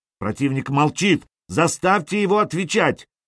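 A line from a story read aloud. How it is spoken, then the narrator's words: Shouting. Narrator (Russian): кричал он помощнику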